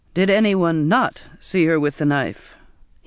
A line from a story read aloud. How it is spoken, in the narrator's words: He said dryly